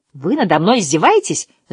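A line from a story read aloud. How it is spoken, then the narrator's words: Wailing yell. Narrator (Russian): завопил Дукиш-Медукиш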